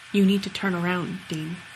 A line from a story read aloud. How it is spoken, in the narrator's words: saying, whispering